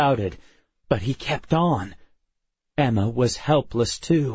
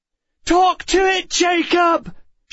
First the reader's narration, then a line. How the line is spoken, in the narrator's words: she shouted